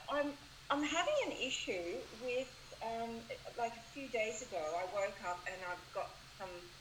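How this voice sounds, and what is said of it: Australian accent. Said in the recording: “are you from Australia? I hear that accent.”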